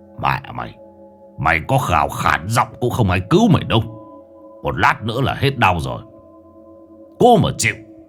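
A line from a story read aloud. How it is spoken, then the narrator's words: Deep hoarse man's reply. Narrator (Vietnamese): Bóng người đàn ông trong bộ đồ tối màu đáp bằng giọng ồm ồm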